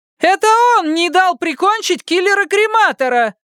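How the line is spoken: Female voice yelling. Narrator (Russian): Заорал в торе ему еще один голос, на этот раз женский

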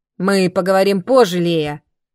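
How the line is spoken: Curt. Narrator (Russian): отрывисто сказал он

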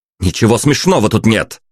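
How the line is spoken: Barking angrily. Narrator (Russian): рявкнул я

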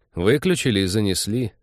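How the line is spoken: Gloomy admission. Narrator (Russian): мрачно признался Тед

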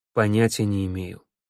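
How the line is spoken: Calm. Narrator (Russian): спокойно сказал Маска

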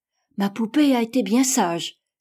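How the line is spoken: Exclaimed. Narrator (French): s'écria Marguerite à son tour

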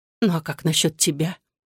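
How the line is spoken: Lifeless objecting voice. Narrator (Russian): неживым голосом возразила Татьяна

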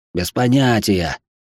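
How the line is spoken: Snapped. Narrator (Russian): огрызнулся Макс

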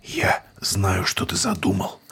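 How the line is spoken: Husky whisper. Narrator (Russian): хрипловатым шепотом произнес преподобный Деквин

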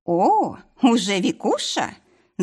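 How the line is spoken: Purring. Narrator (Russian): Замурлыкала

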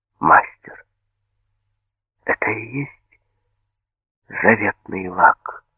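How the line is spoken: Quiet question. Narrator (Russian): спросил тихо

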